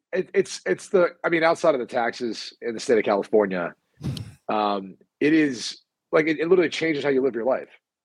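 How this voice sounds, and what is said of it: Congested, strained, nearly lost voice. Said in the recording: “You do sound a little stopped up though. ... my voice is like almost gone”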